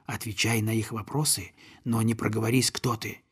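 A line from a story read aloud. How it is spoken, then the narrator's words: Whispered. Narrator (Russian): Мортон гусак шепнуть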